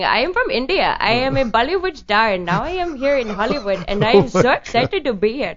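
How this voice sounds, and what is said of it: Put-on foreign accent, pretty good. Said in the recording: “That's a pretty good accent.”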